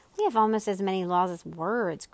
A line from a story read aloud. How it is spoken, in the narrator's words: grumbled the king